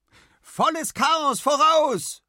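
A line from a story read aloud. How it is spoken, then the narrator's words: Woman calling out. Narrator (German): ruft Anna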